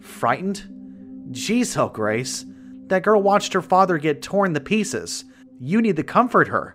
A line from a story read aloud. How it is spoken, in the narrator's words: yelled